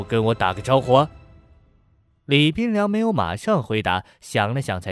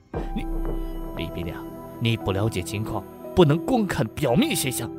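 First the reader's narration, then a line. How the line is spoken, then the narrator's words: Low voice. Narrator (Chinese): 吴全低声说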